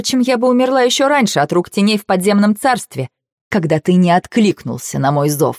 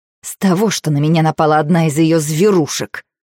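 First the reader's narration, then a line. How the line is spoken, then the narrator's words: Through gritted teeth. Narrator (Russian): Сквозь зубы цежу я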